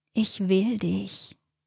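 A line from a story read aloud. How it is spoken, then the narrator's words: Murmured into ear. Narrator (German): raunte ihm Regina ins Ohr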